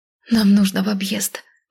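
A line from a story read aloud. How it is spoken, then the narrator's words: Tearful moaning. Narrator (Russian): чуть ли не плача простонала я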